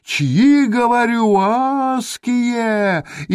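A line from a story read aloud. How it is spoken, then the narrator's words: Man shouting with full force. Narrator (Russian): изо всех сил закричал один из мужиков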